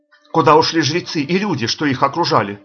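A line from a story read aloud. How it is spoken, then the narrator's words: Plain. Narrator (Russian): спросил Бахага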